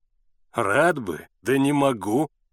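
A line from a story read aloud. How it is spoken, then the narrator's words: Laughing. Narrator (Russian): рассмеялся лодочник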